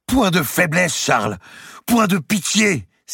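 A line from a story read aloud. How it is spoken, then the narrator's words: Exclaimed. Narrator (French): s'écria-t-elle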